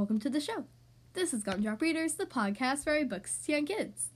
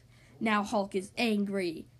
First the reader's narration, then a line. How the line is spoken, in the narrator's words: the green giant growled